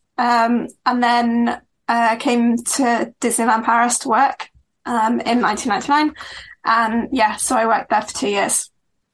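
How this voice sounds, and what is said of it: British accent. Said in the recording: “you can hear from my voice that I'm British”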